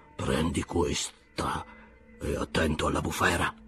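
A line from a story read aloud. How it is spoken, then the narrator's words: Whispered. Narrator (Italian): sussurrò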